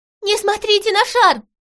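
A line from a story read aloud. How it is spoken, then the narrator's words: Alarmed shout. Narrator (Russian): закричала, понявшая, что происходит, Малинка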